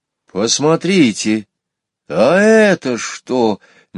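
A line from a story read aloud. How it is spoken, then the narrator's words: Sudden exclamation. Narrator (Russian): неожиданно воскликнул Петя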